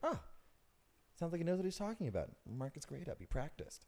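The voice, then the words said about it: Imitates a teacher's voice. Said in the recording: “That's a good teacher impression.”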